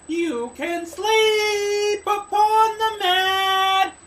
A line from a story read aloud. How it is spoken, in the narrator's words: cried the fair young maiden